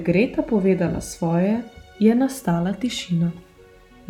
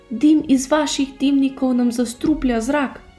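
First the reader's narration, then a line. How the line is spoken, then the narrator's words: Woman shouting. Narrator (Slovenian): je zavpila neka ženska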